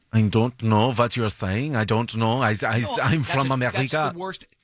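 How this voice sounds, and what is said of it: Bad put-on German accent. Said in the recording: “That's the worst accent you've ever done? ... My German is ... That's what I do whenever I do German. This is the voice I do. It's a little bit gay. It's a little bit nice. ... It's weird”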